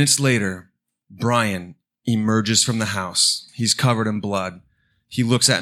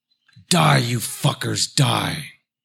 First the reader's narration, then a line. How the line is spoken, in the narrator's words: male voice snarl